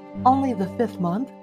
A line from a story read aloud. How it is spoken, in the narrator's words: she said